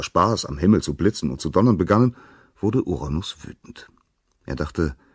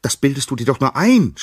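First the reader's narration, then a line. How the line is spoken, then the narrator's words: Shout. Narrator (German): schrie sie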